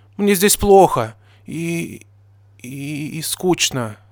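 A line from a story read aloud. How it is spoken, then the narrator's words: Stammering. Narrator (Russian): с заиканием сказала Дёрпи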